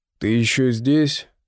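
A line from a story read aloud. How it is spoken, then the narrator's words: Deliberately rough. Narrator (Russian): произносит он нарочито грубо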